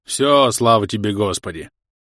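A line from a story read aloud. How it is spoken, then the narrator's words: Booming. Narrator (Russian): прогремел Ставросий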